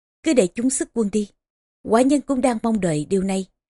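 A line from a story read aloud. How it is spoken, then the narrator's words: Smiling. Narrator (Vietnamese): Ngụy Hệ Hầu mỉm cười nói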